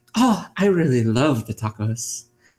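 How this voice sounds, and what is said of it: Put-on Irish accent. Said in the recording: “If I said it with an Irish accent,”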